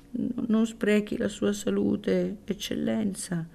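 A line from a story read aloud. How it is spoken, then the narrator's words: Whiny old woman's voice. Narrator (Italian): disse la buona vecchietta con la sua voce piagnucolosa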